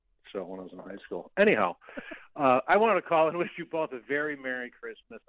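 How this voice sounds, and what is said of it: Chicago accent. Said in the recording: “I'm able to keep my Chicago accent”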